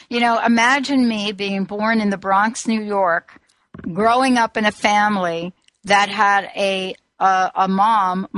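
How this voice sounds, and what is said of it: Mixed New York and Southern accent. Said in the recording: “I heard that accent ... what you're hearing is a half New York and a half, you know, South Carolina accent ... I thought it came from further south than New York.”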